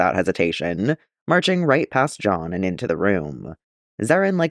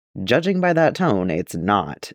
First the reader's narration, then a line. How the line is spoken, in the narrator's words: Jaster says dryly